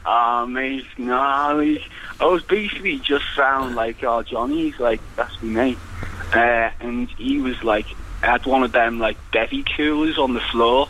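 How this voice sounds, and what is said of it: Liverpool accent. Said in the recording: “it sounds like you're from Liverpool”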